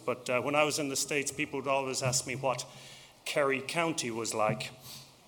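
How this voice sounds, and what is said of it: Irish speaker with American accent. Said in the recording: “I'm Irish... I lived in America for many years, and hence the accent.”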